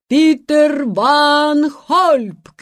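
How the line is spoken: Herald's shout. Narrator (Russian): крикнул глашатай

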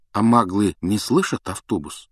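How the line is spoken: Plain. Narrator (Russian): спросил Гарри

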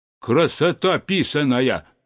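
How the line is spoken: Stern question. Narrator (Russian): строго спросил

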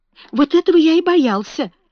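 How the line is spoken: Exclamation. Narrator (Russian): воскликнул Фаунтлерой

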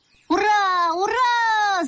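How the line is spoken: Joint shouting. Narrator (Russian): закричали мы с мамой одновременно

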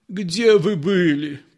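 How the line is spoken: Moaning. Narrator (Russian): простонал предводитель

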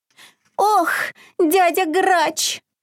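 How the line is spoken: Whimpering. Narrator (Russian): захныкал изюмка

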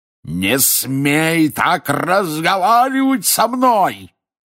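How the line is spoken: Furious roar. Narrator (Russian): яростно взревел дядя Вернон

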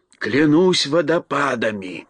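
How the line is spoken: Two voices whispering. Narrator (Russian): прошептал моряк вместе с Элли

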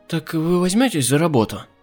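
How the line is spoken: Uncertain question, widow. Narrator (Russian): неуверенно спросила вдова Макдауэлл

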